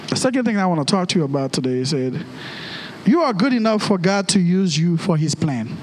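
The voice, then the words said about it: Preacher's own accent. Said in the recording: “now you're preaching with an accent.”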